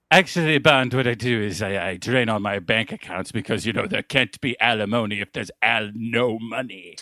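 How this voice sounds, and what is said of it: Put-on English accent. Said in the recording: “an English accent”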